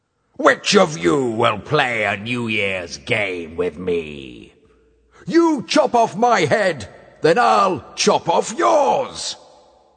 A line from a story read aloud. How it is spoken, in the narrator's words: After a pause, he roared